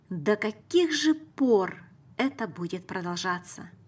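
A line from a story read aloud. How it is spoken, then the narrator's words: Sad. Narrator (Russian): Печально склонив голову, она сказала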